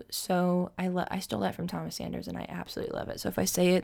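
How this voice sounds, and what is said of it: Tired, slurred speech. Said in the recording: “I'm slurring my words now. I'm so tired.”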